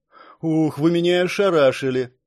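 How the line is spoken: Breathless exhale. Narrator (Russian): выдохнула девушка

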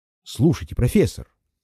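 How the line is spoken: Excited. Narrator (Russian): сказал я взволнованно

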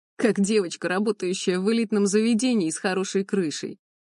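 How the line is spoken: Laughing. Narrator (Russian): рассмеялся он

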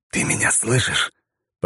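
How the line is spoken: Whispered. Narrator (Russian): прошептал я

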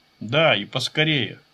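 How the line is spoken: Said through clenched teeth. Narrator (Russian): процедил Ичиро

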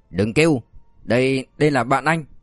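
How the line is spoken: Shouting. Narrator (Vietnamese): Thiệu Cương bội hét

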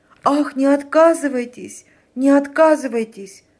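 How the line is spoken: Pleading voice. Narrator (Russian): промолвила фрау Леноре умоляющим голосом

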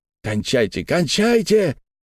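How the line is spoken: Impatient crowd shouting. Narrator (Russian): кричали некоторые нетерпеливые зрители, недовольные медлительностью Эндрю Джилмора

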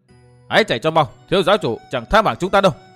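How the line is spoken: Loud shout. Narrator (Vietnamese): hét lớn

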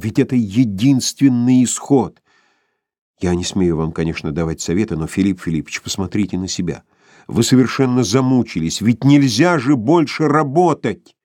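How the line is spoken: Passionate exclaim, then whisper. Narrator (Russian): страстно воскликнул Барменталь, продолжал шепотом

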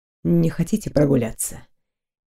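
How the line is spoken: Quiet. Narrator (Russian): тихо проговорил Дайрон

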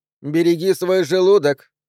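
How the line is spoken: Called after. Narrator (Russian): крикнула вслед Дебби

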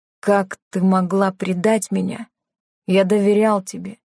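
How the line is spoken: Plain. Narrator (Russian): сказал Тео

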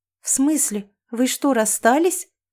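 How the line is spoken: Surprised exclamation. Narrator (Russian): воскликнула Лиса

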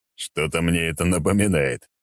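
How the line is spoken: Chuckling. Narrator (Russian): хохотнул я

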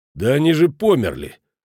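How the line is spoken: Irritated interruption. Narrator (Russian): раздраженно прервал ее Шмидт

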